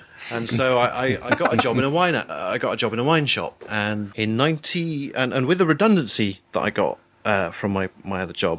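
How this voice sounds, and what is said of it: Posh English accent. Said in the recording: “I've just got a posh accent.”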